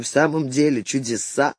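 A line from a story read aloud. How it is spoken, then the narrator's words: Muttered. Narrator (Russian): пробормотал он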